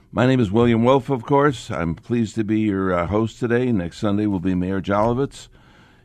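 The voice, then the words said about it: Voice not its usual self. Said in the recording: “I apologize for my voice. I had a medical procedure 12 days ago where they put an ultrasound device down my throat, and my voice has not been the same since”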